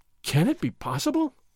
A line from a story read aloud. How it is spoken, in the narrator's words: Don Diego gasped